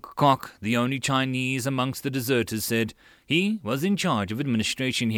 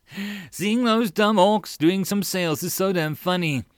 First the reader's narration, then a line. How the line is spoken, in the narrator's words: Ivan laughed together with Nicholas